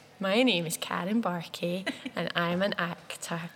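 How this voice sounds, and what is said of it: Silly schoolgirl voice. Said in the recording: “doing the silly schoolgirl voice.”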